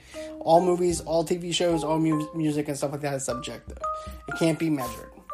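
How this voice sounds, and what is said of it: Hoarse, congested voice. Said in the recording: “My voice is kind of going out. My sinuses are kind of acting up.”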